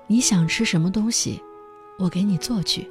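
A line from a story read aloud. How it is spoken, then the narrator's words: Sighing question. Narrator (Chinese): 他叹了口气，问道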